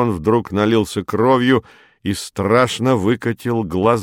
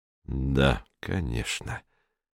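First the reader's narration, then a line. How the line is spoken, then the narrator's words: Sad. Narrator (Russian): грустно сказал Румата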